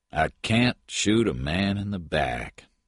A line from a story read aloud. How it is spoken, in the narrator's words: Patton said sadly